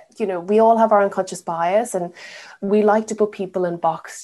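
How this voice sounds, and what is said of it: Irish accent. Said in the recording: “being Irish in the UK ... I really confuse them with my accent”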